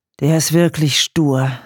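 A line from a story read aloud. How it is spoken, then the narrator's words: Sighed. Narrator (German): seufzte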